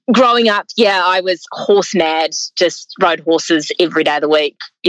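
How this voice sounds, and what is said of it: New Zealand accent. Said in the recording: “by my accent, you can tell that I grew up in New Zealand”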